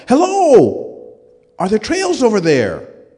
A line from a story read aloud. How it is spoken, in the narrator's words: I yell out